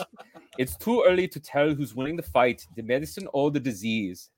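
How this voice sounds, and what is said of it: Put-on German accent. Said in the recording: “the uh, painfully unfunny German doctor”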